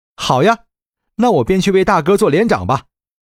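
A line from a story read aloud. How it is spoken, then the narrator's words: Loud. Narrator (Chinese): 李兴大声说道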